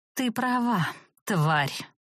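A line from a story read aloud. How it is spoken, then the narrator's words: Furious trembling hiss. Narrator (Russian): прошипела, уже не сдерживая ни искажающее лицо злобы, ни дрожащего голоса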